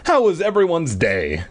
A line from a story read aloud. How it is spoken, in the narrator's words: Dad asked cheerfully